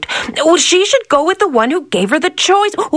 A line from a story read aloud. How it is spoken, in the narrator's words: the princess blurted out